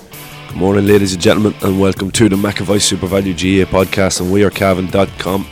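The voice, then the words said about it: Slightly unwell, strained voice. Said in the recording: “excuse my voice, I'm coming down with a little bit of something”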